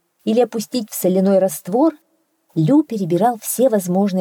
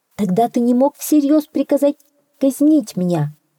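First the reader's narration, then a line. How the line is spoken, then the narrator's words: Exclaim. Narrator (Russian): воскликнул хитрец Лю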